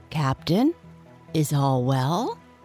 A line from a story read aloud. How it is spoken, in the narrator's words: they asked timidly